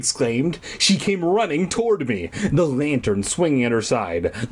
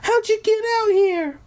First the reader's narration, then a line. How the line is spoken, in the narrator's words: She cried again